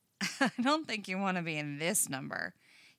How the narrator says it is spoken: he laughs

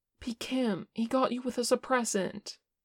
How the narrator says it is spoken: Che said desperately

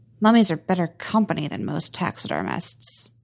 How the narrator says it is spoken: muttered Ben

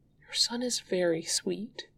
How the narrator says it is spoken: says, quietly enough to not interrupt

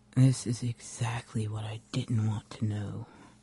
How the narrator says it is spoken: Rodney mutters

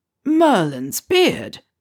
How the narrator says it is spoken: Slughorn exclaimed

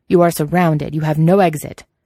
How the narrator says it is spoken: Xing Guangsheng thundered

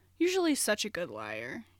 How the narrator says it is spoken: Andrew said

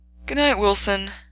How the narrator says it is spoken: Wilson said with a yawn

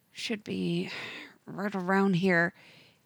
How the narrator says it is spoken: mutters under his breath

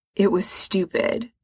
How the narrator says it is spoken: Frank mutters

